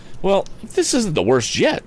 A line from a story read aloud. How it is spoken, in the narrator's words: cried the youth to himself